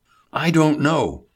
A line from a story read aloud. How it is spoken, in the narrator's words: Hubert exclaimed